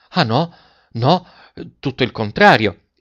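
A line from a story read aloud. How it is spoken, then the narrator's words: Heartfelt eager exclamation. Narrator (Italian): esclamò De Rossi con uno slancio dell'anima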